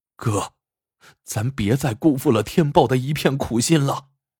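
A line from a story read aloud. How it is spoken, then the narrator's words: Said crying. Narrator (Chinese): 马天虎哭道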